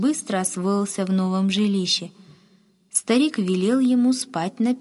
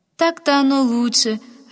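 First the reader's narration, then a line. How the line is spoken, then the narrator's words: Happy, pleased woman. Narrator (Russian): радостно подтвердила довольная женщина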